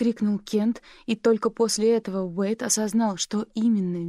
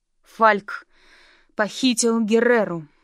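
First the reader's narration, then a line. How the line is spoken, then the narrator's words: Strained, forced words. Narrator (Russian): с трудом выдавил Уэйд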